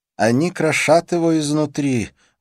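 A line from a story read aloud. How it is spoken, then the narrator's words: Sigh. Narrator (Russian): вздохнул Милье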